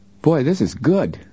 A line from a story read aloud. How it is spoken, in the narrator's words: Joe exclaimed as he bit hungrily into a thick roast beef sandwich